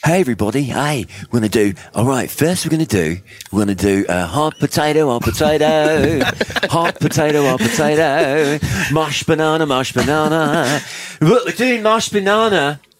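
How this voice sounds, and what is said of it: Put-on Australian children's entertainer voice. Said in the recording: “Do an Australian accent ... Like the Wiggles”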